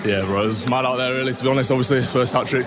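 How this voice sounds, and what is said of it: West Yorkshire English accent. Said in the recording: “a bit of an accent ... obviously from England, so West Yorkshire”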